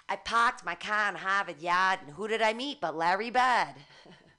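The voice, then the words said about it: Put-on Boston accent. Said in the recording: “It's how you do the Boston accent.”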